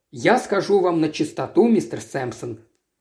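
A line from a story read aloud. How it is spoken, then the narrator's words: Almost calm. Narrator (Russian): продолжал он почти спокойно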